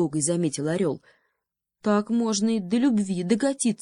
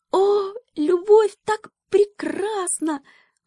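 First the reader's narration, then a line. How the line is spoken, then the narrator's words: Delighted squeak. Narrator (Russian): восторженно пискнул мышонок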